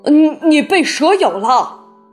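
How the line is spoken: Shout. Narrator (Chinese): 他叫道

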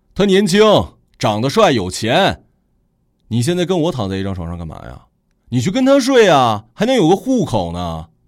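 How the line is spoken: Loudly. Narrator (Chinese): 高远大声的说

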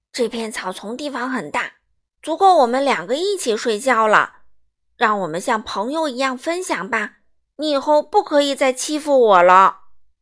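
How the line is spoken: Brave, loud. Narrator (Chinese): 花豹深呼吸一下，鼓起勇气，大声对狮子说

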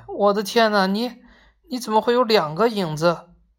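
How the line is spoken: Alarmed woman's shout. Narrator (Chinese): 男人的妻子发现了什么，大叫起来

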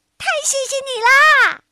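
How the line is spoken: Happy farewell. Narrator (Chinese): 泰奇高兴的跟小石头 道过再见

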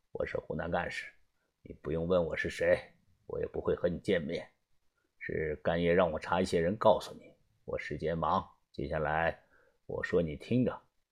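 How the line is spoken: Deep, low voice. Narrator (Chinese): 对方声音低沉，听不出来年龄的大小

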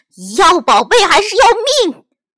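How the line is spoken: Furious loud roar. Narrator (Chinese): 他暴跳如雷，气势汹汹地大声喝道

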